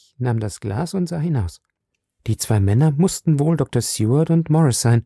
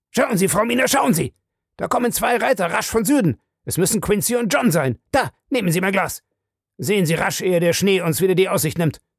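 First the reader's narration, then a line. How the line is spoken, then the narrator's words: Sudden shout. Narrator (German): Plötzlich schrie er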